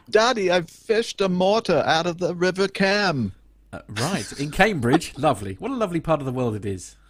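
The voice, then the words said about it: Terrible put-on English accent. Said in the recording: “Great accent. that was a terrible accent. ... very bad ... with English. ... your audition for um, Mary Poppins”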